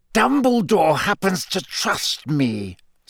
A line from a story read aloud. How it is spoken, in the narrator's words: said Snape through clenched teeth